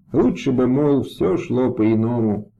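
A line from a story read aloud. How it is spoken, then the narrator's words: Several voices muttering. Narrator (Russian): забормотали они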